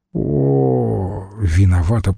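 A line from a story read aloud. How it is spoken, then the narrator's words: Moaning. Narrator (Russian): простонала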